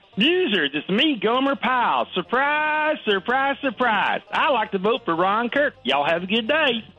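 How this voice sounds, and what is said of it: Unconvincing imitation of another person's voice. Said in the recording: “It really didn't sound like Gomer Pyle ... Bit of a dated impersonation.”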